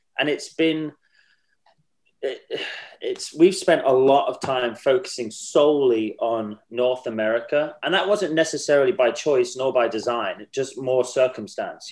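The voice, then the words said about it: English accent. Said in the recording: “as you can tell from my accent ... we're an English band. You know, we are a British band.”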